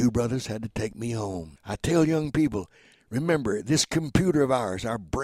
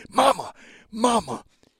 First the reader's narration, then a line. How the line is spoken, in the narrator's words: I screamed